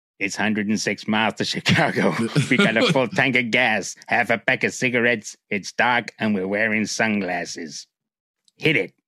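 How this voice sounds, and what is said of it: Put-on Chicago accent. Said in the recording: “what the accent was ... That was my Chicago ... Something more New York?”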